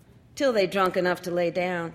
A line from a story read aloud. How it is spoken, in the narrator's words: she said